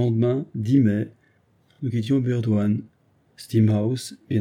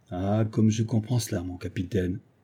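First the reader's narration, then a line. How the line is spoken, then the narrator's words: Sighing orderly's reply. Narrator (French): répondit le brosseur en laissant échapper un soupir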